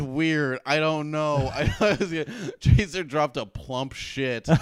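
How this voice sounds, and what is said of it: Usual voice. Nothing is said of it.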